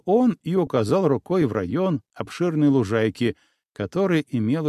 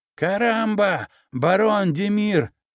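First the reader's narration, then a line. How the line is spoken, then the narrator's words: Startled yelling. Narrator (Russian): заорал при виде меня Тосик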